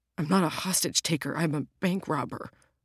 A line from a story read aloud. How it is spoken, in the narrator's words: the bank robber whimpered